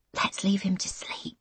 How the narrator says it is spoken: she whispers

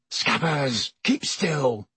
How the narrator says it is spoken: Ron hissed

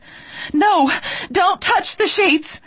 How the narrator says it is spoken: I screamed

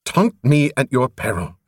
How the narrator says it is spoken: she snapped

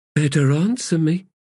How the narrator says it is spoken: Blend said in a casual tone

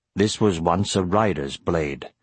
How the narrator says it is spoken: said Brom gravely

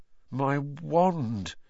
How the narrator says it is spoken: said Ron in a shaky voice

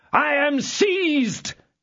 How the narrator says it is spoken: bawled Athos with the utmost strength of his lungs

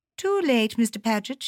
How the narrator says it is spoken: she said cheerfully

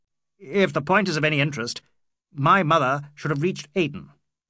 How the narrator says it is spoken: said Ronnie dryly

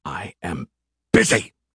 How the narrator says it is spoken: he snapped

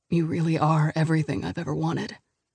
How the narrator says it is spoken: he mutters, gentle, reverent, hoarse

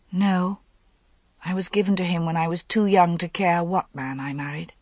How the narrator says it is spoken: Now she said quietly

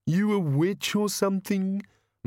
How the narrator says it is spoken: moaned the bogeyman

